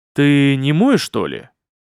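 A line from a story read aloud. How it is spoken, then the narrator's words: Demon's resonant inquiring voice. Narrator (Russian): поинтересовался демон звучным голосом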